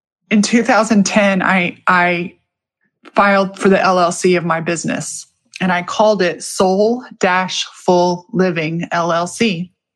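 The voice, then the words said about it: Emotional voice cracking. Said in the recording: “my voice cracking”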